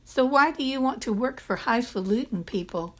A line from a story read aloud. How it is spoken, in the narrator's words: Mavis said